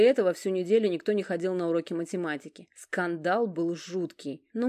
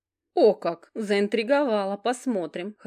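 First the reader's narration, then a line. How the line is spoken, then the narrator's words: Laughing. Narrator (Russian): хохотнула Алекс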